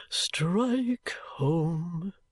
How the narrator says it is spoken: murmured Mr

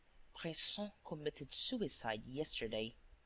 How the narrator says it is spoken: said in a low voice

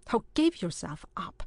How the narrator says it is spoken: exclaimed the latter

